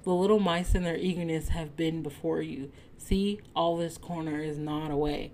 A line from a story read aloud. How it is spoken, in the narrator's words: laughed the other